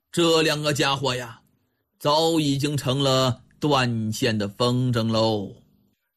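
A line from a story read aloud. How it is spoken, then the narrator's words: Long sigh. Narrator (Chinese): 狄仁杰悠悠地叹息了一声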